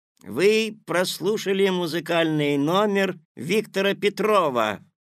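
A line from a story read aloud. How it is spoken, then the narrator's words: Loud announcement. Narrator (Russian): громко объявил вышедший на сцену Мишка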